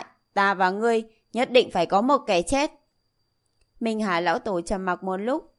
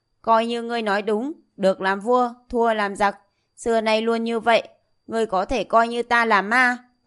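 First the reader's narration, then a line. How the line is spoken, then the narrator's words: Laughing loudly. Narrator (Vietnamese): Diệp Chi Thu cười lớn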